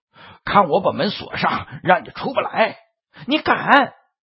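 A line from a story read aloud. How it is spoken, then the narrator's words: Loud yelling. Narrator (Chinese): 大声嚷嚷道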